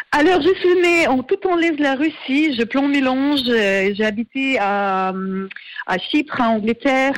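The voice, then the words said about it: Slight foreign accent in French. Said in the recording (French): “le petit accent”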